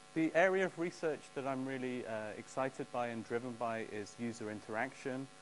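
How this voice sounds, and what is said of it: English accent. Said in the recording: “From my accent, you can probably tell I'm from England.”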